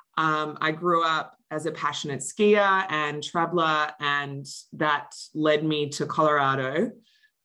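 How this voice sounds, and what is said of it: Australian accent. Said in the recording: “don't be fooled by my accent. ... I'm originally from Australia.”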